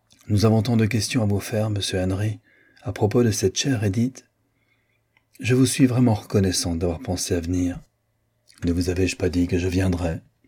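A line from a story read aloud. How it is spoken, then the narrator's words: Lower-toned reply. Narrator (French): répondit-il d'un ton plus bas que celui qu'avait pris Marguerite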